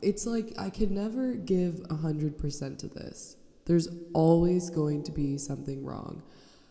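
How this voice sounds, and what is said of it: Nasal, congested voice. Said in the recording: “now I'm sick... if I sound nasally”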